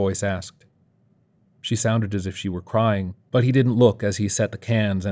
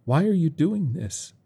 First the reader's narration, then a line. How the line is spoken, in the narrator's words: Bob sighed loudly